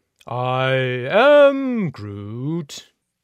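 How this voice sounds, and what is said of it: Impression of talking tree character. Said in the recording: “That's a pretty good impression.”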